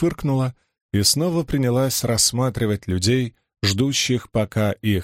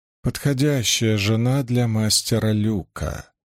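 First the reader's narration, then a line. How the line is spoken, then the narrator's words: Purring. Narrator (Russian): промурлыкал Туон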